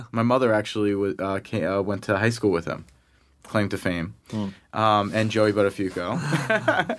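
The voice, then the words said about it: Long Island New York accent. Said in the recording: “I grew up in Long Island, you know, in New York. Hence my Long Island accent that will come out.”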